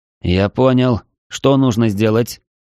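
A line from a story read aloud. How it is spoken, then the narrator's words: Tired, dejected voice. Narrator (Russian): спросил я усталым, подавленным голосом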